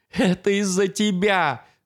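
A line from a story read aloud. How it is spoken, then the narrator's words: Sobbing. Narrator (Russian): рыдал Шеп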